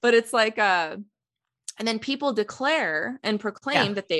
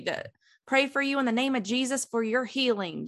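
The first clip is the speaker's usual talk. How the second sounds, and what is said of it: Put-on Southern American accent. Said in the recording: “they're always southern accent”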